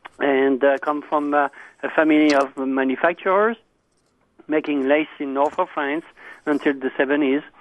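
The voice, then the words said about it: Slight French accent. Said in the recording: “I have a small accent. I'm not from Alabama, but from the other side of the pond, that is in France”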